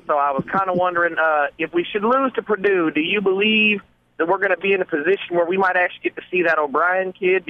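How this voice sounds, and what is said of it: Southern American accent. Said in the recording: “I don't know if that was ... fake Southern accent or real Southern accent.”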